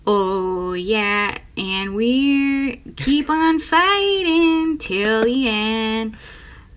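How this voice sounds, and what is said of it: Sung line in Minnesota accent. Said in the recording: “doing a little bit of it in like a Minnesota accent? ... That's perfect.”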